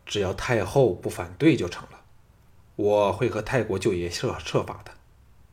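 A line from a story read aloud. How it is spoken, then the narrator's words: Low voice. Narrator (Chinese): 项少龙低声说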